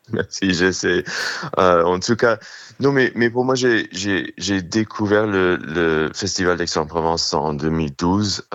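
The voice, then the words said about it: New York accent speaking French. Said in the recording (French): “désolé pour l'accent new-yorkais”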